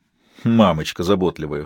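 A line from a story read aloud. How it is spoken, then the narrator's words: Snorting. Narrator (Russian): хмыкнул Малачи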